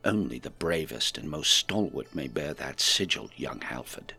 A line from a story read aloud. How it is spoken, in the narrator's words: Bodo leaned in close and said in a low, conspiratorial tone